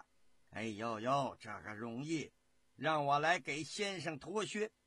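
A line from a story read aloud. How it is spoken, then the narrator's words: Joking reply. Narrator (Chinese): 刘瑾也开了个玩笑，答着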